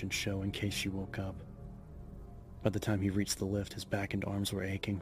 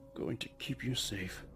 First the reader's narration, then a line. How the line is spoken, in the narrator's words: he murmured